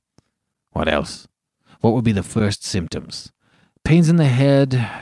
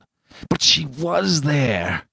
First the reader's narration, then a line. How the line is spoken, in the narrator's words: groaned to himself